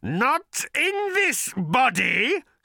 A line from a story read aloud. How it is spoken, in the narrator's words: screeched the creature